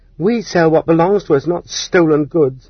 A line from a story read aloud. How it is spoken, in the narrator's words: the prostitutes shouted back